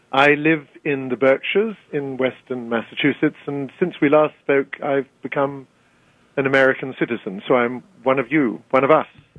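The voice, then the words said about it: British English accent. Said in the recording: “despite your accent, we are absolutely thrilled. Has any Brit ever lost his accent?”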